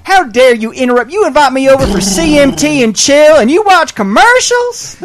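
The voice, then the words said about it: Imitates another person's voice. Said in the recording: “my Miss Carhart impersonation”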